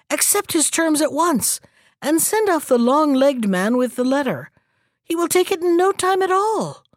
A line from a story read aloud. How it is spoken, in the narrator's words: cried the hermit